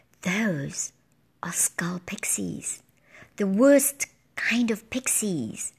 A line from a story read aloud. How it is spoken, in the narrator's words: Blue Rider whispered